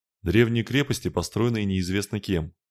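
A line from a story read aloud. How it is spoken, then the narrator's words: Plain. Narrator (Russian): ответил посол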